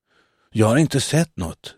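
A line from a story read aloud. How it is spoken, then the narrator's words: Quiet. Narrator (Swedish): svarade Dako tyst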